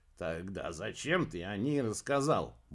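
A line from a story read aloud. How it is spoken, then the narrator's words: Displeased grumble. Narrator (Russian): буркнул Олли, недовольный тем, что ниточка стала рваться на глазах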